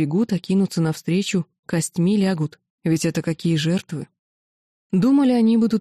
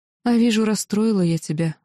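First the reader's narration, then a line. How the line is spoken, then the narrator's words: Sigh. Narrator (Russian): вздохнула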